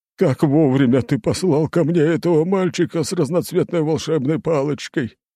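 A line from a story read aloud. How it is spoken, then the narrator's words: Sobbing through tears. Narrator (Russian): Он начал содрогаться в рыданиях и что-то приговаривать сквозь слезы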